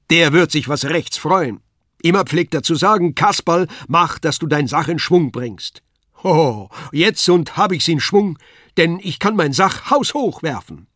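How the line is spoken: Called out. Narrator (German): rief er

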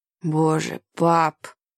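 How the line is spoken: Muttering. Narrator (Russian): пробормотал Ной

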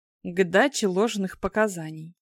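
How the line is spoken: Calm widow's reply. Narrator (Russian): спокойно отвечала вдовушка

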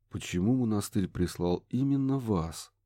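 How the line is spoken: Quiet question. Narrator (Russian): негромко спросил Курт

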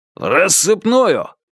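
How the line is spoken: Barked, in thought. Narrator (Russian): мысленно рявкнул Че Гевара

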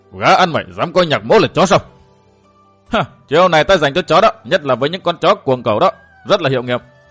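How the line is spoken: Furious hiss. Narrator (Vietnamese): Lời nói của Kiều Tử càng khiến Bất Hối tức giận hơn, sắc mặt của gã sám ngoét, y rít lên

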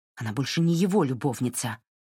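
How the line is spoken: Sharp objection. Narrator (Russian): резко возразила Марин

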